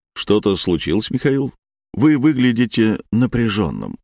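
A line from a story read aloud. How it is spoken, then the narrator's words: Plain. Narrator (Russian): сказал Орлов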